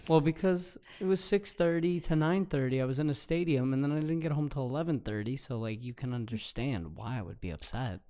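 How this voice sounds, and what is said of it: Hoarse, strained voice. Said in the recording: “my voice is gone ... I was yelling. I was being very loud.”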